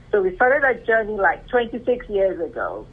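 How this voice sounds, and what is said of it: Non-American foreign accent. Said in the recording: “I'm sure you can tell from my accent and from my name that I'm not from the U.S.”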